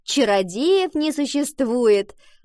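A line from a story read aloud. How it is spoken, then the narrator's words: Chiming in, laughter. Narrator (Russian): подхватила Валентина, и девочки расхохотались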